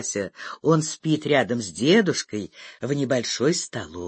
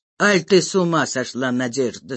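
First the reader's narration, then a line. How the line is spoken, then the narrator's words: Reproachful question. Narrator (Russian): спрашивает он, укоризненно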